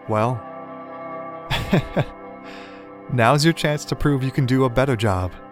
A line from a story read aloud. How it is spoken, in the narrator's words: Fowlon laughed